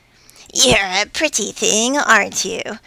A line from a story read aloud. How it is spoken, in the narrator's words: snarled Fats